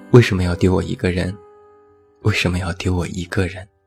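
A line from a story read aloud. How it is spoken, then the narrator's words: Low repeated question. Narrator (Chinese): 他一直在低声问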